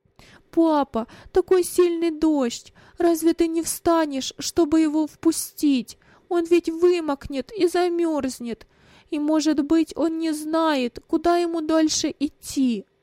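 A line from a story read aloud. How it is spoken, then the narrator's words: Sobbing speech. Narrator (Russian): Рыдания прерывали его речь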